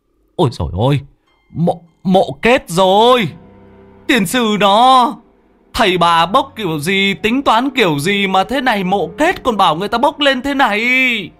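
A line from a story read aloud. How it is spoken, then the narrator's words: Shriek of shock. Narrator (Vietnamese): Người trên bờ có người biết rú lên một tiếng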